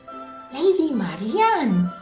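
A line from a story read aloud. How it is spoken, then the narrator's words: Surprised exclamation. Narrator (Spanish): exclamó Guy de Gisborne sorprendido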